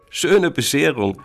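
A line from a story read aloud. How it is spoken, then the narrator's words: Laughing. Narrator (German): lacht Penny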